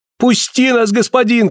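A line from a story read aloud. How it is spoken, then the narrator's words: Shouted. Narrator (Russian): кричали они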